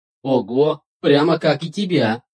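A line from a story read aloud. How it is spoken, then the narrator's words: Answer, then loud laughter. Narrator (Russian): Ответил Один и расхохотался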